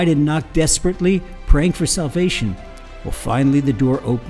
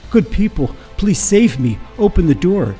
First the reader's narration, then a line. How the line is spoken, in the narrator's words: Panting and short of breath, she gasped